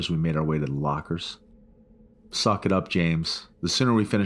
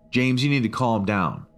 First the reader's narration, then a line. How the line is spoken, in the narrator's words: Adams shouted